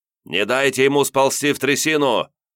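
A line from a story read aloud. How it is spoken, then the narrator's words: Rough voice shouting commands. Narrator (Russian): грубый голос орал команды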